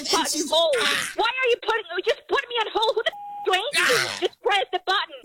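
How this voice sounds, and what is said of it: Angry yelling. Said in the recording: “Why are you yelling at me?”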